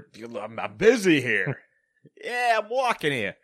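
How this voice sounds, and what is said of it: Bad put-on Queens New York accent. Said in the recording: “I don't know what accent I'm doing anymore. ... I live in Queens. ... it's like a really, really bad Ray Romano”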